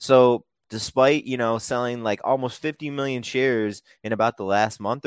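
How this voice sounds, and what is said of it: Usual voice. Nothing is said of it.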